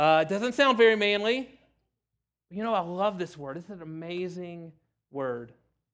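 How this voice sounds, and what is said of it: Usual voice. Nothing is said of it.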